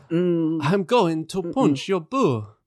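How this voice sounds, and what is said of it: Put-on French accent, Dracula-like. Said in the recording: “That was French accent... it sounded a little bit like Dracula”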